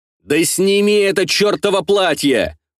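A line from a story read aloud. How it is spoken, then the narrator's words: Shout. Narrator (Russian): выкрикнул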